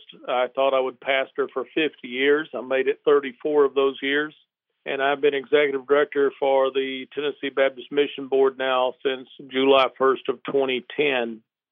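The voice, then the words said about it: Southern US accent. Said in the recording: “a combination of Alabama, Mississippi, and New Orleans in that accent.”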